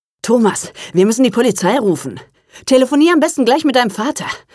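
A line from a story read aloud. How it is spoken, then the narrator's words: Breathless suggestion. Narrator (German): schlug Martin keuchend vor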